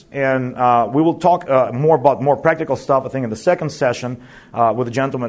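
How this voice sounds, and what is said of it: American-sounding English accent. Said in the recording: “I look and sound American somewhat, but I'm not. I've never lived in America. I just walked with American missionaries. When people ask me, how is that your English sounds so American?”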